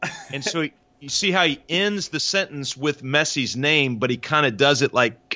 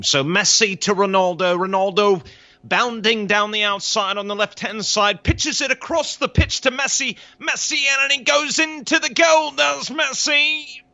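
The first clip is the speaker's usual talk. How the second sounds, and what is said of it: Excited sports commentator impression, horse-race style. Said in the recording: “It also sounded a little bit like Kentucky Derby, like you're calling a horse... impersonation”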